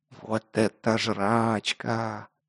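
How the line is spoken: Reverent whisper. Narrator (Russian): благоговейно прошептал непосредственный Лок

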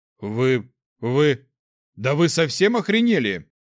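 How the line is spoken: Roared. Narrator (Russian): взревел Шекл

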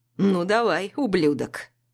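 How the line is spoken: Sneering, provocative drawl. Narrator (Russian): Ехидно тянет Асад, нарочно провоцируя

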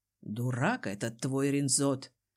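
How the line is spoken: Chuckling. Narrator (Russian): хохотнул Дезмонд

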